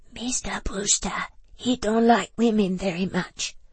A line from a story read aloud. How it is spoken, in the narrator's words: whispered Hawar from behind her hand